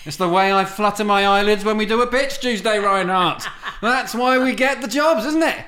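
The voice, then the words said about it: British accent. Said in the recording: “Your charming British accent. ... My charming British accent.”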